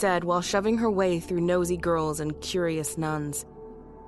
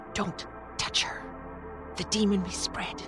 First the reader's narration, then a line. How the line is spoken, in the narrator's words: one of the standing nuns whispered to him